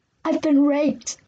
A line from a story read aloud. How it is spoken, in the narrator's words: I cried hysterically